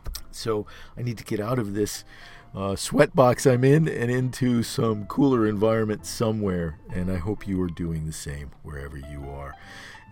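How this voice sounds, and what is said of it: Strained, failing voice. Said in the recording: “I'm losing my voice, as you can hear”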